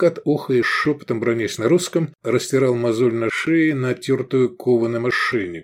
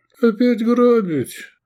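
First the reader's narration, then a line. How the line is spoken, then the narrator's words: Dejected question. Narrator (Russian): упавшим голосом спросил Шавкат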